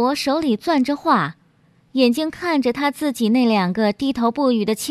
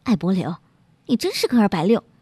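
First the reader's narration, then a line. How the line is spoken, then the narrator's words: Wife, low voice. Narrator (Chinese): 妻子 小声说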